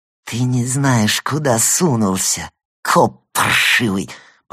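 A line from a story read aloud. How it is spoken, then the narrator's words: Hissed through teeth. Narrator (Russian): прошипел он сквозь свои верблюжьи зубы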